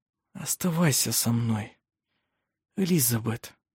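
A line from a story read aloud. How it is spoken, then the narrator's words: Whisper in the ear. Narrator (Russian): прошептал на ухо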